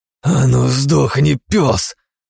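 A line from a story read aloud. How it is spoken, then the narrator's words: Growled through clenched teeth. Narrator (Russian): сжав зубы, рыкнул Игнат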